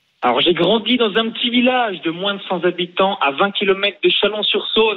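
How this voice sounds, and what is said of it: Slight regional French accent. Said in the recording (French): “je, trouve que tu as un petit accent.”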